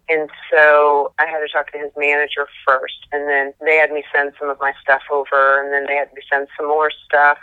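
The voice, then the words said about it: Distinctive accent. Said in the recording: “That's a great accent”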